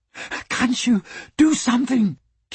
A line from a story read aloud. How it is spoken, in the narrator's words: Kate panted